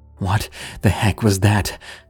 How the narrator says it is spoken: Jacob gasped

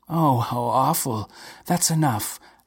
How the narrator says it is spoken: gasped Maria

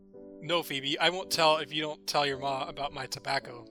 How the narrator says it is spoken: Maze laughs

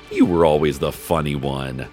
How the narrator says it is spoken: His father laughed and said

